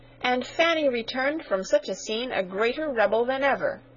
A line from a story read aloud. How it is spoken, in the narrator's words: cried Sarah indignantly